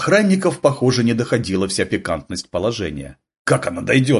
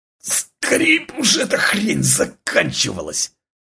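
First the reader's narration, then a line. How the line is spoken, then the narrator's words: Strained, forced out. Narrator (Russian): Тужась, как роженица, выдавил Максим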